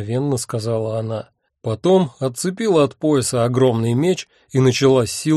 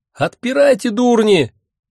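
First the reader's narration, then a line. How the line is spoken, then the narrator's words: Frantic screaming. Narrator (Russian): истошно вопила она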